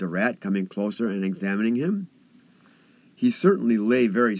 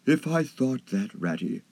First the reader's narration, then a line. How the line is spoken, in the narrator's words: murmured Toad, more feebly than ever